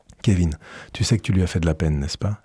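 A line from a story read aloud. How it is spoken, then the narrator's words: Plain. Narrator (French): ai-je dit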